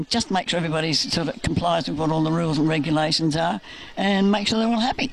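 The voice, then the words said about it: Strained, fading voice. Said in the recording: “losing my voice”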